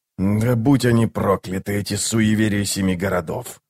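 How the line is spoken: Quiet cursing. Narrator (Russian): тихо выругался он

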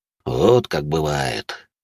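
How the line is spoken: Deep bass voice. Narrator (Russian): пробасил Дежуриньи

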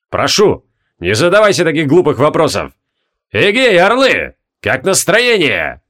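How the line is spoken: Barking shout. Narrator (Russian): Гаркнул он

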